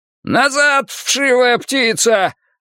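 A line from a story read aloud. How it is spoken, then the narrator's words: Furious yelling. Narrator (Russian): орал Крюк, яростно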